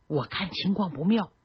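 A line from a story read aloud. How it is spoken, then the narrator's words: Low voice. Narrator (Chinese): 他低声说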